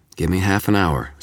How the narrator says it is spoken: Susan said

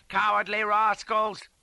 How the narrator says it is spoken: hollered

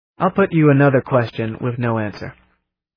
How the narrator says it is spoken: I said

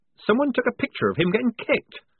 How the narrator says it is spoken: squeaked Polly, drenched in a sudden horror

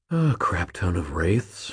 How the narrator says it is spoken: I breathed quietly

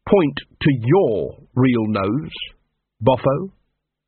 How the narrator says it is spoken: said Carrot in the pleasant tones of someone talking to a simpleton

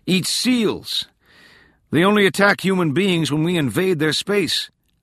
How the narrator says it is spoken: Tolan yelled

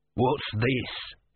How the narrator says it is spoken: he snarled

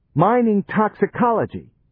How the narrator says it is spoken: snapped Johnny

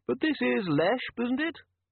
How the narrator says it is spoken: it said in a tinny yet polite voice

